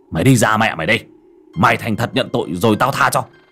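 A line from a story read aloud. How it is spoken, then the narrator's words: Stern shout. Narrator (Vietnamese): Ông quát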